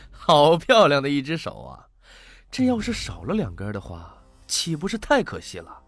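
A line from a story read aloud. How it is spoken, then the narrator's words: Cold sneering laugh. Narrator (Chinese): 那拿匕首的男子嘿嘿冷笑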